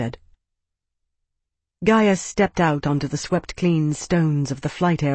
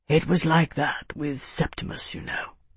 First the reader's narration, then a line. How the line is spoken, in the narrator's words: he said quietly